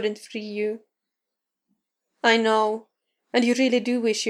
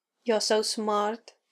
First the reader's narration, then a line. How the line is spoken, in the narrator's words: murmured next to his ear